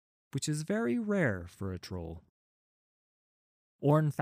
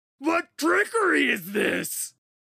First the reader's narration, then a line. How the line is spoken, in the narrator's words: He shouted